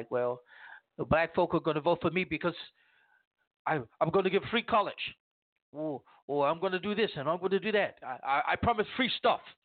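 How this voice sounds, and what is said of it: Poor Bernie Sanders impression. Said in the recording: “That is a horrible, horrible impersonation of Bernie Sanders.”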